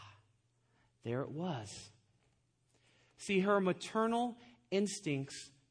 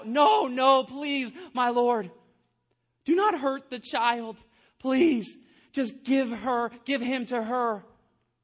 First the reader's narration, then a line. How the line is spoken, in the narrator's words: the woman on my left screamed out